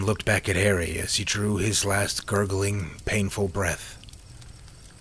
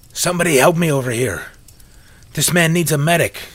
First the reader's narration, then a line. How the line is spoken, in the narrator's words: he shouted